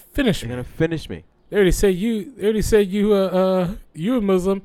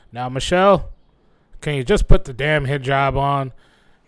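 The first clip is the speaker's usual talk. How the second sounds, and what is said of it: Poor imitation of another person's voice. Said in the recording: “Is that a Barack Obama impression? ... That's my Barack Obama ... it was pretty crappy ... just as bad, if not worse”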